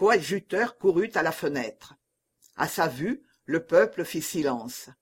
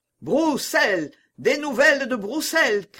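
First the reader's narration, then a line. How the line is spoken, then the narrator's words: Crowd shouting. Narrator (French): criait le peuple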